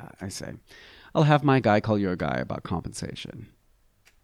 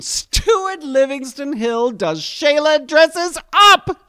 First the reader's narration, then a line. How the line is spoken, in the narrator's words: she screams in a triumphant tone of voice